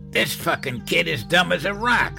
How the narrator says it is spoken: Jason growled

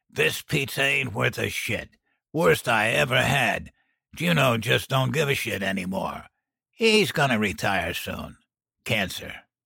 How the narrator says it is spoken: grumbled

